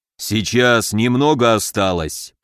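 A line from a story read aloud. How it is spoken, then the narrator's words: Growling through clenched teeth. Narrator (Russian): прорычал Камбулат, сжав зубы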